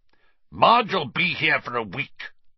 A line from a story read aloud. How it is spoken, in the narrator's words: Uncle Vernon snarled